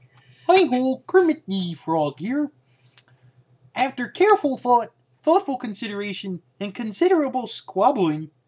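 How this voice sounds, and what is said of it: Kermit the Frog character voice. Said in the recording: “my Kermit impression.”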